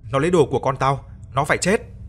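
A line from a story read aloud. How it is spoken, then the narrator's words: Woman roaring, screaming. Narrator (Vietnamese): Gầm lên, cô ta thét lớn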